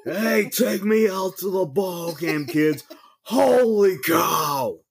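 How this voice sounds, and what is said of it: Bad impression of a baseball announcer. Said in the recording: “your Harry Carey impression ... that really is bad. The worst Harry Carey.”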